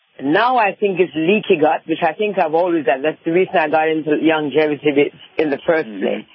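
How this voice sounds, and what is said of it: Slight Jamaican-English accent. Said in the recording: “a little bit of an accent ... born in Jamaica, but I was raised in England”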